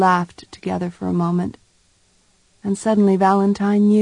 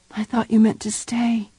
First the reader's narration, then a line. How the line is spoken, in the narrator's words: she whispered